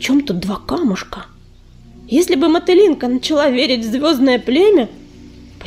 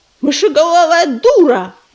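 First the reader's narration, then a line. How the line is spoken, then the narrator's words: Angry yelling. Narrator (Russian): заорал он на Мотылинку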